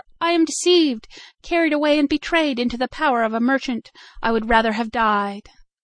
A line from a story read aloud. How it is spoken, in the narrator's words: she cried in terror